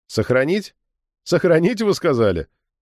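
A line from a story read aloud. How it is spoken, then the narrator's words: Forced laughter. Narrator (Russian): Я деланно расхохотался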